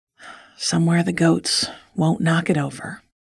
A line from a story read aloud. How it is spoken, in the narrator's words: said with a sigh